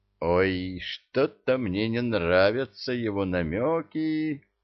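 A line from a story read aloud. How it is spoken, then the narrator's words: Drawn-out drawl. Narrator (Russian): протянул Молотков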